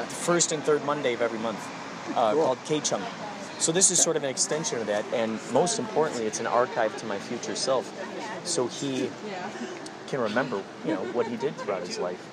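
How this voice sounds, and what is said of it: Strong Chicago accent. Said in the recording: “where are you from? Wisconsin? ... Chicago. ... you got a strong accent. ... Chicago. That makes sense. That checks out.”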